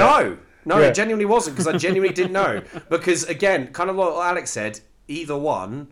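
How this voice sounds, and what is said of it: Usual voice. Nothing is said of it.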